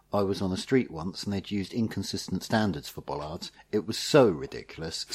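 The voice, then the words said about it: Impression of journalist James Ball. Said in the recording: “this is my James Ball impression ... quite a good impression of James”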